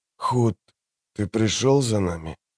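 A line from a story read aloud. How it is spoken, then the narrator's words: Hoarse, barely voiced. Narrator (Russian): Слова ясно прозвучали в сознании, но наружу вырвались лишь хриплые звуки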